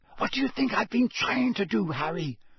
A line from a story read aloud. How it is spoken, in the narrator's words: she whispered back, her eyes round with anxiety